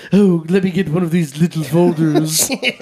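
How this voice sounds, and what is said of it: Bad imitation of another person's voice. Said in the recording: “a bad Jeff Goldblum impression”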